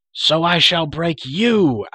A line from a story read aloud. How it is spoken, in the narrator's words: Akron shrieked